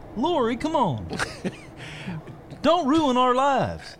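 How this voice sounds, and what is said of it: Dr. Phil impression. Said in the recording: “is that your David Axelrod imitation? ... Yeah, it's my it's my Dr. Phil.”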